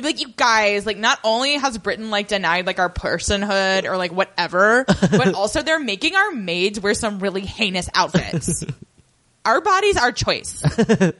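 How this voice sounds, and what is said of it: Mock Jezebel writer voice. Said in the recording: “My impression of Jezebel in the 1920s.”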